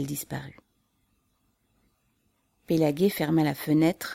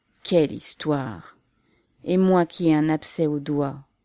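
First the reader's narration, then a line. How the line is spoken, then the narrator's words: Grumbled. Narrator (French): grogna-t-il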